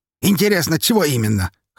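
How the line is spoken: Wry snort. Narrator (Russian): хмыкнул Павел

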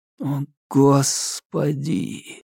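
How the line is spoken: Whisper. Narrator (Russian): прошептал Минхо

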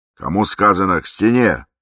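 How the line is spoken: Barked shout. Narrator (Russian): гаркнул Низенький

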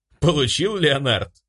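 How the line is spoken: Pleased laughing. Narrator (Russian): довольно засмеялся ангел

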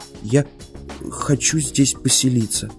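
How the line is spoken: Quiet. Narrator (Russian): тихо сказал Мортон

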